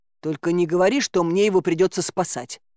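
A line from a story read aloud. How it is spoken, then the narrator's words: Grumbling. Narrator (Russian): проворчал он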